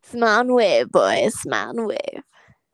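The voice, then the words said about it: Cartoon penguin voice impression. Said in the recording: “her penguin impression”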